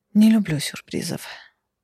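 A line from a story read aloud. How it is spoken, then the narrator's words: Muttered. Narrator (Russian): пробормотала я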